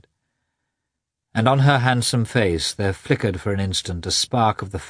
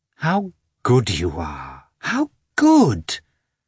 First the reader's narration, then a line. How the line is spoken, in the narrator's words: exclaimed Kitty